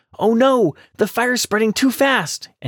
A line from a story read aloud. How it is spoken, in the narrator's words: the rabbit exclaimed